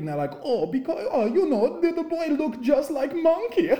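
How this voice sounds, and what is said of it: Put-on Swedish accent. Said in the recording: “is that the Swedish accent? ... you nailed it.”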